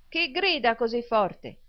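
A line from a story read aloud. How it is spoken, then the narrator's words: Shouted. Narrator (Italian): gridò Smike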